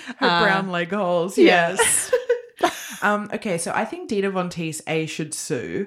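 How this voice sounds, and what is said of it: Usual voice. Nothing is said of it.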